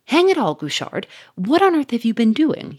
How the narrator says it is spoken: he cried

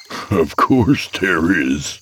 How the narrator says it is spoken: said with a hollow chuckle, clearly thinking it was obvious

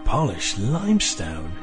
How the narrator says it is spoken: Ian breathed

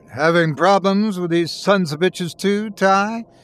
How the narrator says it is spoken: he bellowed down the phone

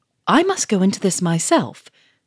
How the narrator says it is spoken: cried Monsieur Fomoré in wild excitement

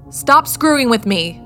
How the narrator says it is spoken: I shouted towards the door

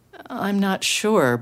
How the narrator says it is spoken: Benji replied sadly

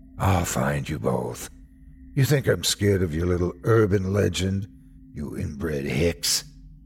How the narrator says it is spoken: He laughed, deep and raspy

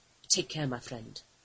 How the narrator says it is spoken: Connor murmured

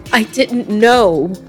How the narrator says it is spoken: Magdalena cried

